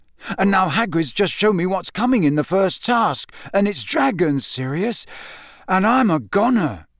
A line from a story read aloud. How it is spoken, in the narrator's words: finished desperately